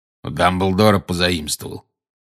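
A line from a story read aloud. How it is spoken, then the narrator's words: Growling. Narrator (Russian): прорычал Грюм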